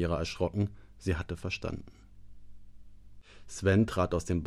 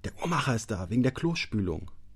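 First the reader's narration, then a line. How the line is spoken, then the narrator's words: Hissing. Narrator (German): zischte Sven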